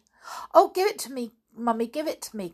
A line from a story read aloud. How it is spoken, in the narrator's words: cried Janet